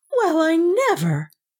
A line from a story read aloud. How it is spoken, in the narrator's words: Beta gasped